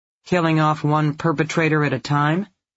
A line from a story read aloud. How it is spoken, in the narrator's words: Didi asked dryly